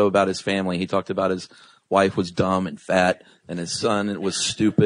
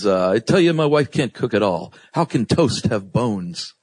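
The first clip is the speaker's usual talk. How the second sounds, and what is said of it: Imitates another person's voice. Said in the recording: “your impression is getting better as we go along ... Brings out the ... danger field in all of us”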